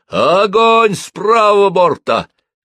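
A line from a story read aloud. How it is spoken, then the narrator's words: Shouted. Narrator (Russian): крикнул Кернош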